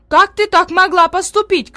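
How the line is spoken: Woman shouting. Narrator (Russian): кричала одна

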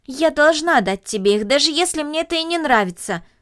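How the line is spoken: Plain. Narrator (Russian): сказала Люся

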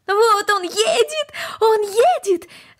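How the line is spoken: Shouting. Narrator (Russian): закричала Корнелли

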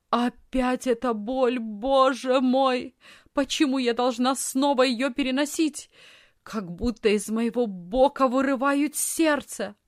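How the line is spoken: Loud moaning cry. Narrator (Russian): Вдруг она громко застонала и закричала

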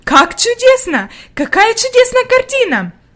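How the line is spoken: Exclaim. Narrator (Russian): воскликнула она

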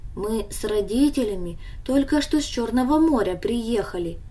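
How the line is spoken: Calm explanation. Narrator (Russian): объяснил он ей спокойно

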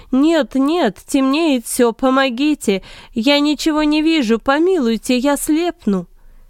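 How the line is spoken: Pleading scream. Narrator (Russian): Симон закричал, умоляя

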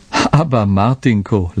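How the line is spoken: Women laughing. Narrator (German): lachten die anderen Frauen

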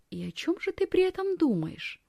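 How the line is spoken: Quiet question. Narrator (Russian): тихо спрашивает Якоб

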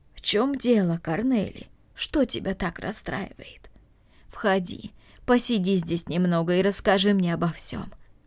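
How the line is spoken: Gentle. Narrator (Russian): ласково сказала Марта

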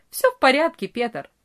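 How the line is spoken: Cheerful reply. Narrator (Russian): весело ответил Франц

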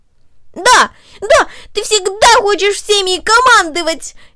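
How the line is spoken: Furious shout. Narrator (Russian): яростно выкрикнул он

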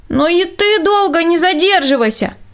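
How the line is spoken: Shouting after someone. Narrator (Russian): крикнул ему вдогонку Рудольф

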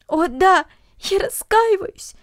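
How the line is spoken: Sobbing. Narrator (Russian): всхлипывала Люся

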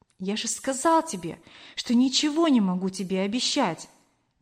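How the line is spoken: Gentle, trembling. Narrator (Russian): мягко ответил Кор, дрожа всем телом

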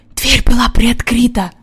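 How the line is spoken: Whispered. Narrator (Russian): прошептал Джон

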